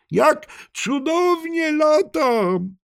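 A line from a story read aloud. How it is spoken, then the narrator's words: Shouting. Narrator (Polish): krzyczał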